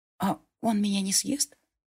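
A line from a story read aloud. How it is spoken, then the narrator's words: Young woman's joking whisper. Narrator (Russian): Шепотом пошутила девушка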